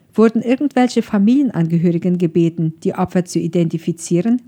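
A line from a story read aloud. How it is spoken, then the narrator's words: Plain question. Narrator (German): fragte Don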